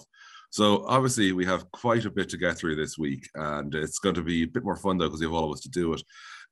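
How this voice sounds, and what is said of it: Voice not its usual self. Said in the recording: “if I don't sound my normal self, I am on the backside of a pretty nasty flu ... my voice is still not quite its usual dulcet itself”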